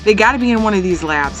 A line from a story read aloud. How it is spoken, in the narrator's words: answered Gary